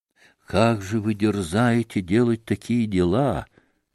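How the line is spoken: Solemn, imposing question. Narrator (Russian): спросил вдруг монах, внушительно и торжественно

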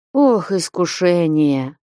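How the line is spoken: Deep sigh. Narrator (Russian): глубоко вздохнул Василий Борисыч

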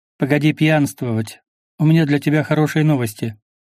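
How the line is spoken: Cheerful. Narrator (Russian): весело подмигнула Рина

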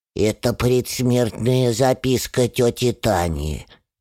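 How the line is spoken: Smoke-roughened voice. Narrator (Russian): отвечает прокуренным голосом Хрюша

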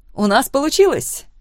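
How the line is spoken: Fervent emotional exclamation. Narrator (Russian): горячо воскликнула Лора, вызывая у меня улыбку своей эмоциональностью

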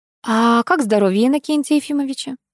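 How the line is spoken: Ingratiating wife's inquiry. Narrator (Russian): вкрадчиво поинтересовалась супруга

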